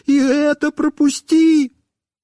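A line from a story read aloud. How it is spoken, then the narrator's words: Wailing and pleading. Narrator (Russian): снова начинал вопить и умолять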